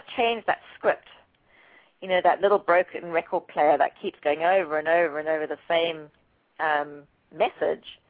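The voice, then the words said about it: Slightly raspy, strained throat. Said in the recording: “my throat's getting a little raspy”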